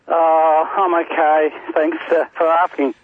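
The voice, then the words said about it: Disappointed, downcast tone. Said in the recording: “you sound like a man with disappointment in your voice”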